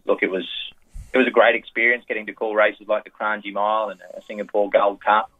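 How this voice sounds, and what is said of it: Strong Australian accent. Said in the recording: “I had another Australian up there with me ... we are a little bit different, Australians ... my strong accent”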